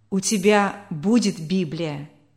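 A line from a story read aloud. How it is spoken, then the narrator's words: Solemn. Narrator (Russian): торжественно произнес мистер Анри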